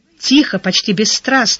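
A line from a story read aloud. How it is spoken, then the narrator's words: Flat rote recitation. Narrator (Russian): сказала Яна, словно излагала заученную теорему строго по учебнику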